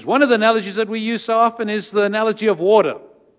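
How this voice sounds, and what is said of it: Upper Michigan accent. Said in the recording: “this accent is strictly from the UP”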